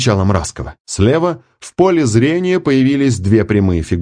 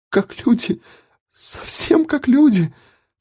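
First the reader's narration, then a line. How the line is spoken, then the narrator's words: Sobbing. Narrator (Russian): всхлипывала она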